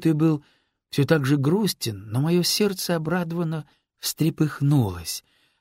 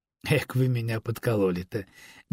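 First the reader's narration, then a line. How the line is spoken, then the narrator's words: Involuntary laughter. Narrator (Russian): невольно рассмеялся я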